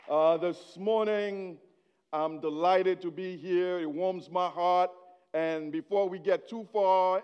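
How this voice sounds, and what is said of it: Haitian-accented English. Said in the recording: “where is the accent coming from ... I was born in Haiti. So whatever accent you're hearing, it's me trying to speak English”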